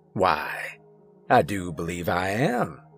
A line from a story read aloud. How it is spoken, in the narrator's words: he responded after a chuckle and a smile